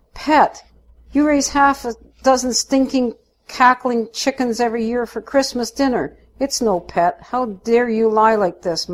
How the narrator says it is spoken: Mum cries

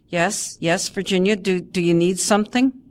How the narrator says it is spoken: Miss Singleton stammers

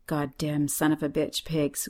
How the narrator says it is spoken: mutters

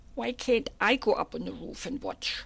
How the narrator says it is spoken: whined

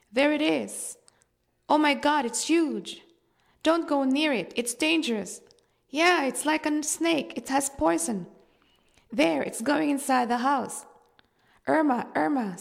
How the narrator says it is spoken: neighbors shouting

